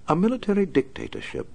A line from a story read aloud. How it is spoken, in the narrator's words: Alfred said dryly